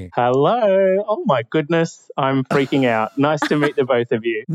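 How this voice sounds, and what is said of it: Mixed Australian-English accent, Kiwi twang. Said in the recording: “Where's this charming accent from? ... It's a bit of a mix. So I'm in Australia, but there's a little bit of English on my mother's side ... you have a bit of a Kiwi twang ... It almost has an Irishy sound.”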